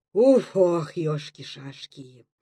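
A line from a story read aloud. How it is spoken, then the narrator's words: Breathless, drowsy sigh. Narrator (Russian): Будто в сонном падении с замиранием вздохнул Антон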